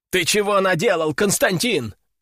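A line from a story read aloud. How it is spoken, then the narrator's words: Fighters shouting. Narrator (Russian): закричали на меня бойцы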